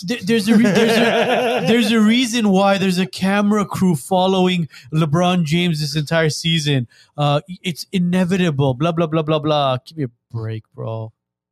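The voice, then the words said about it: Cartoon character voice. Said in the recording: “Was that your South Park voice? ... I'm impressed you stayed in that accent for that long.”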